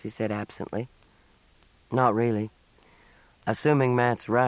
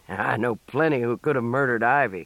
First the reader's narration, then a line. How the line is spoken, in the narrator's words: the second man said with a snort